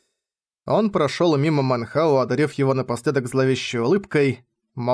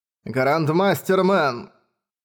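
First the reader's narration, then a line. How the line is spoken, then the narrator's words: Cold. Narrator (Russian): холодно сказал драгонар седьмого ранга Мо Цзы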